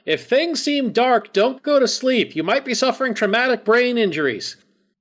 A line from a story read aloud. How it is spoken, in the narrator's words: Kara also shouts after Chorog